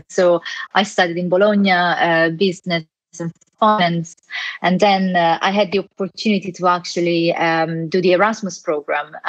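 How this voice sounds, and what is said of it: Italian accent. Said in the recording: “as you can hear from my accent, I'm Italian.”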